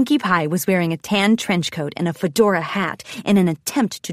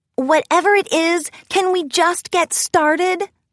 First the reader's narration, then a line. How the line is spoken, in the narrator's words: Rarity whined